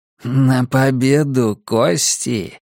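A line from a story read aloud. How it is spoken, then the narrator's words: Coo. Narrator (Russian): проворковал Джордж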